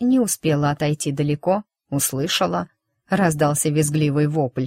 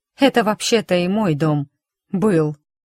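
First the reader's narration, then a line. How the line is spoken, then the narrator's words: Grumble. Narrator (Russian): проворчала я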